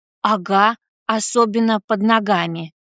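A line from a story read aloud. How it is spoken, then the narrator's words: Displeased grumble. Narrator (Russian): недовольно буркнула Катя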